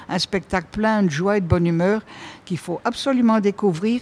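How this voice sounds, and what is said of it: Belgian French accent. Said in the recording (French): “ça s'entend avec votre accent quand même, donc théâtre belge, vous venez de la Belgique.”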